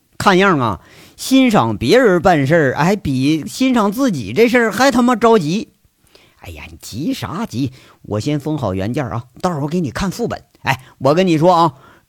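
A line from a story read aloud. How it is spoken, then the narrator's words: Wry, fawning. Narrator (Chinese): 陈大拿一脸惨笑，讨好的对着杨伟说着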